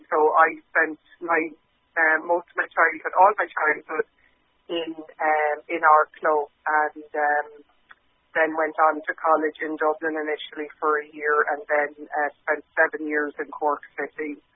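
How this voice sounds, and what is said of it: Strong Irish accent, Arklow and Cork. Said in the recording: “people still find my accent a little bit hard to place. There are bits of Arklow in it, and there are bits of Cork ... I think I still have a strong accent”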